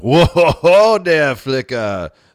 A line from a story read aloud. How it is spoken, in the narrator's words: Zuzu laughed